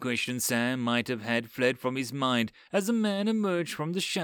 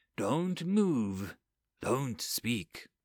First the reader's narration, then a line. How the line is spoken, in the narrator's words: said quietly